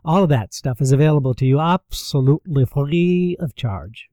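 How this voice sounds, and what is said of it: Weird accidental accent. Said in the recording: “that was a weird accent that just came out just then”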